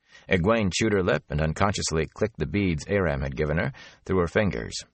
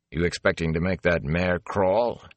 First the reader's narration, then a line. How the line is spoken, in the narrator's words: He said dryly